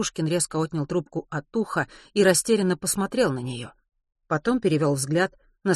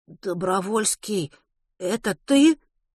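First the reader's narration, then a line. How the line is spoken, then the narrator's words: Stunned, forced out. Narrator (Russian): выдавил из себя Веня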